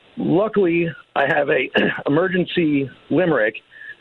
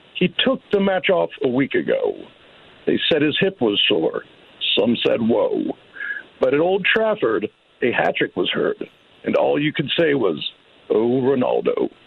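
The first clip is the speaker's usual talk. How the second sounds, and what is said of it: Keith Morrison impression. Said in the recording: “I'm going to try to do this in the voice of Keith Morrison.”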